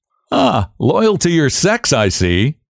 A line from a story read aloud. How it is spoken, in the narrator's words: he laughed